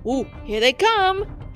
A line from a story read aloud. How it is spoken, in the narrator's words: shouted Tibbs